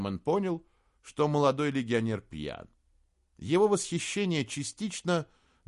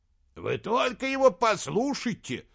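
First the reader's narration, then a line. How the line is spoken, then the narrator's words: Shouting. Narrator (Russian): закричал Джелис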